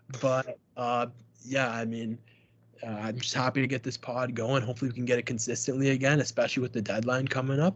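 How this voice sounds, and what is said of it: Rough, damaged voice. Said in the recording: “If you've noticed my voice... my voice is screwed up all episode”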